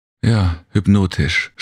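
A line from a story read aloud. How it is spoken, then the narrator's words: Weary faint agreement. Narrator (German): stimmte Serena mit matter Stimme zu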